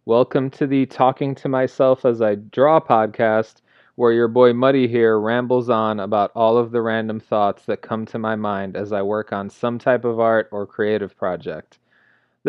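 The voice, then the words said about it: Flat monotone speaking voice. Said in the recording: “the random thoughts delivered by my monotone voice”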